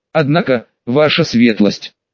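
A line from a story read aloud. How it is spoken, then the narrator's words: Shocked mutter. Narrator (Russian): потрясенно пробормотал маг-смотритель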